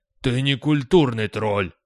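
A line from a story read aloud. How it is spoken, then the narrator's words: Cliff's bark. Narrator (Russian): рявкнул утес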